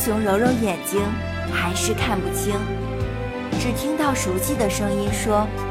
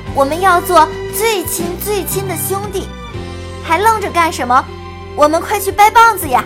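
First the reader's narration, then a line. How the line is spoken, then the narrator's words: Deep breath, loud. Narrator (Chinese): 黑熊深深地吸了口气，大声地说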